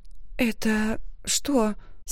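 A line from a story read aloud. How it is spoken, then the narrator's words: Hoarse question. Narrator (Russian): сипло спросила я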